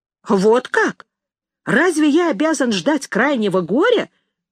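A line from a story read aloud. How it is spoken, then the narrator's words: Exclaiming. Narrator (Russian): воскликнул брат указательный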